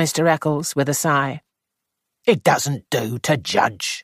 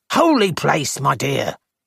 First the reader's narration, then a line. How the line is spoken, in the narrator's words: he said impatiently